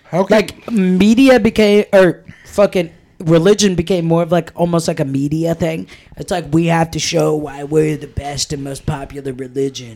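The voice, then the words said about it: Imitates another person's voice. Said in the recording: “I don't know why I'm doing my Trump voice. ... No, you are doing a Trump voice. ... That's my Trump voice.”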